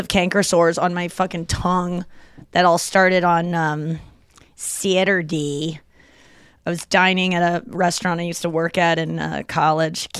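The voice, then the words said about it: St. Louis accent, Fargo-like. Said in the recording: “I don't know why I'm talking very St. Louis today ... we definitely adapted a St. Louis kind of accent ... it's almost like Fargo”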